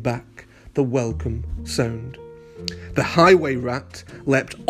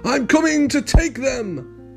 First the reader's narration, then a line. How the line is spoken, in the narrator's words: the rat thief yelled